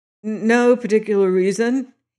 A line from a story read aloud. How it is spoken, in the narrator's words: he stammered